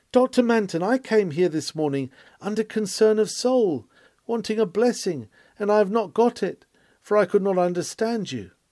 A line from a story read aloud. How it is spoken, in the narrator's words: an aged woman cried